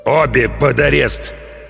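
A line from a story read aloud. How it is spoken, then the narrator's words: Growled. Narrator (Russian): прорычал капитан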